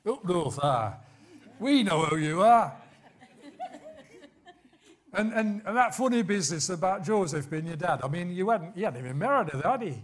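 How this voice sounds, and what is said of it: Put-on Liverpool accent. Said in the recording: “I should do a Liverpool accent.”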